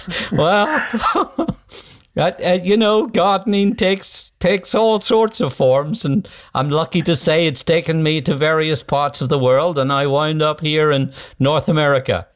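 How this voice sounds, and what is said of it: Northern Irish accent. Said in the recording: “You have an Irish accent. ... It sounds as if you were brought up in Northern Ireland from that accent.”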